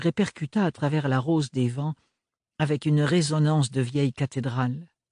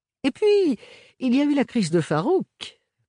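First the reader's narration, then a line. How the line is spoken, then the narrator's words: Amused, joking. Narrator (French): poursuivit Archibald d'un ton hilar, comme s'il racontait une bonne plaisanterie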